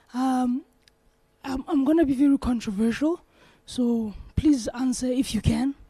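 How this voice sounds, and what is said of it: Hoarse, sore-throated voice. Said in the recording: “Excuse my voice, I have a sore throat.”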